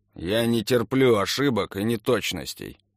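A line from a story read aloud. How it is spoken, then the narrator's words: Very unpleasant voice. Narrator (Russian): сказал Блинов очень неприятным голосом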